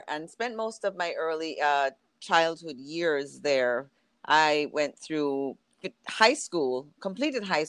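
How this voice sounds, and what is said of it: Jamaican accent. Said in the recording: “before everyone hears your accent ... where's ... from? ... I was born in Jamaica, born and raised there”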